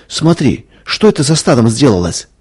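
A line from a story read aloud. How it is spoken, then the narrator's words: Frightened cry. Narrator (Russian): испуганно вскрикнула Надя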